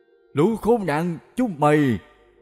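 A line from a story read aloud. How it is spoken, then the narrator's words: Yelling. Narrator (Vietnamese): la hét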